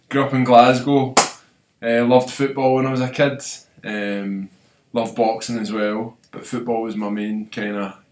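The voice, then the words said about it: Glaswegian Scottish accent. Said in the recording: “I'm from Glasgow, as you can probably tell with the accent. ... people being able to understand me”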